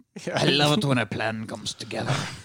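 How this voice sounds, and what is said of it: Put-on Irish or Scottish accent. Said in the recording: “I've got that accent. ... That's more Scottish.”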